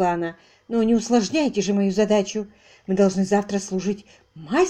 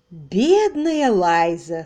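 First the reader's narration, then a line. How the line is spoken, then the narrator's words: Said, then laughing. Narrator (Russian): сказала она и снова засмеялась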